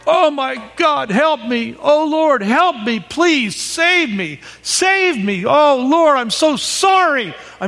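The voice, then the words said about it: Loud pleading cries. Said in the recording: “in a loud voice ... I mean, really loud.”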